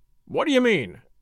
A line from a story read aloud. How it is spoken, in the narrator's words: snapped Cray, quite savagely